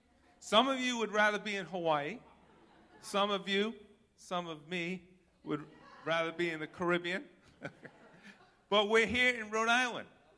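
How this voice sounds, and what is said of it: Rhode Island accent, New York-like. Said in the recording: “If you're a Rhode Islander, your accent is tough ... you sound like you're from New York”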